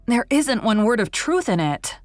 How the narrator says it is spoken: declared hotly

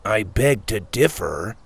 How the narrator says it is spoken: Sawyer mumbled

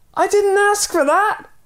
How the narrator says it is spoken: yelled the man

